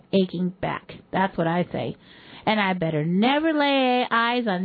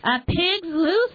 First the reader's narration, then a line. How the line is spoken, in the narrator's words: yelled